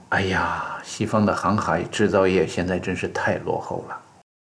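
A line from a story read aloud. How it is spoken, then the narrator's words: Sighing exclamation. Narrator (Chinese): 不禁感叹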